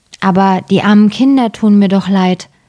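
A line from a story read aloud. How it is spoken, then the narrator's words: Plain. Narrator (German): sagte der Mann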